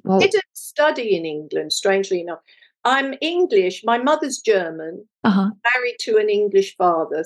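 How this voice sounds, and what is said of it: British English accent. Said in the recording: “your wonderful British accent”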